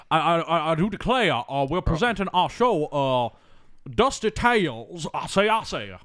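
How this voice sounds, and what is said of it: Foghorn Leghorn cartoon rooster voice. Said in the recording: “Foghorn Leghorn is the presenter. He's like”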